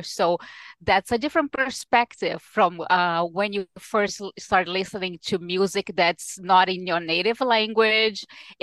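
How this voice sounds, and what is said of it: Non-native English accent. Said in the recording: “I wasn't born here. I mean, you can hear it in the accent”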